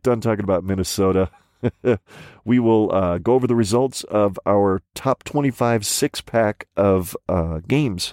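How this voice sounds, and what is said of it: Hoarse, rough sick voice. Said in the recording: “My voice sounds like absolute death warmed over because I've caught the seasons are changing crud, and it's settled into my throat, not to mention the fact that I spent about 3.5 hours on Saturday yelling at my radio.”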